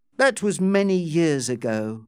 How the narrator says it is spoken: Amelia said coldly

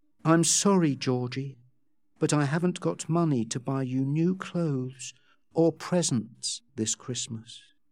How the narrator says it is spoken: she gently told Georgie

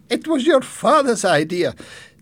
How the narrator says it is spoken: Jenny's mother laughed

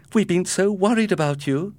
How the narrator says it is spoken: exclaimed his mother

